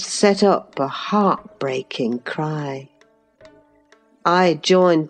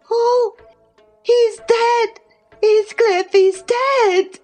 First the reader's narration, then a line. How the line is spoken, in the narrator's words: She screamed out